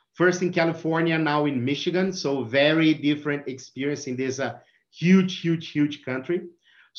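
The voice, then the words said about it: Brazilian accent. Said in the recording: “my accent. So I'm from Brazil.”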